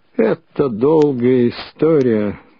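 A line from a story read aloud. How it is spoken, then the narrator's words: Muffled, hollow voice. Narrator (Russian): глухо начал он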